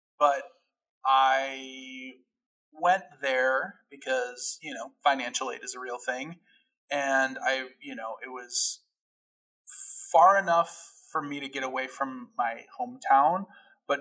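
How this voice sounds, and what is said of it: Chicago-area American accent. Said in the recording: “It was about 30 minutes away from my home in Addison, Illinois, and uh, you can hear it in my accent.”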